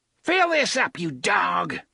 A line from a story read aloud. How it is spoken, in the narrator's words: he shouted